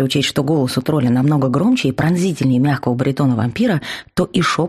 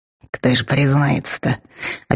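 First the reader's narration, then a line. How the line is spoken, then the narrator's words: Whispered remark. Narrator (Russian): Опять-таки шепотом заметил Вал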